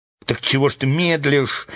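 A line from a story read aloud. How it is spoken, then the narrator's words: Angry shout, crow. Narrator (Russian): сердито крикнула ворона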